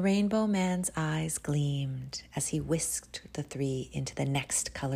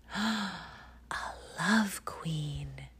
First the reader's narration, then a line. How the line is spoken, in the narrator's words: whispered Misha